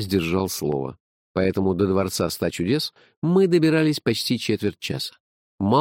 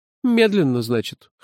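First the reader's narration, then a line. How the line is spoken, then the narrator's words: Amused grunt. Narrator (Russian): хмыкнул он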